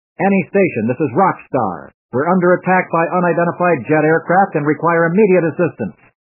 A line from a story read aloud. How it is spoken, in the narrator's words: Hallman called out